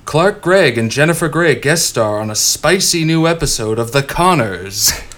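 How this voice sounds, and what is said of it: TV announcer voice. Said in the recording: “announcer voice”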